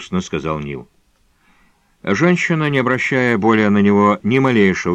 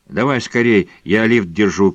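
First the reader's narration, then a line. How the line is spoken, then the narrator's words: Shouted. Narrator (Russian): крикнула Линда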